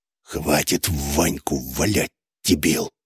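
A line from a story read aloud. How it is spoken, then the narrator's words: Hateful hiss. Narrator (Russian): зашипел на меня Косяков, но шипение это сочилось такой ненавистью, что мне оно показалось криком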